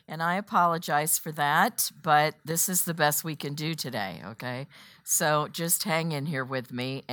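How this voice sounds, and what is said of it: Voice unusually low and off. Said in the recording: “my voice is a little goofy ... I'm about an octave lower than normal”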